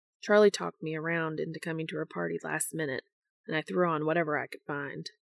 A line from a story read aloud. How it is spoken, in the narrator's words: he mutters